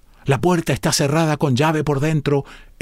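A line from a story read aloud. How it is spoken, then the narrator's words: Exclaiming. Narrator (Spanish): exclamó Clovis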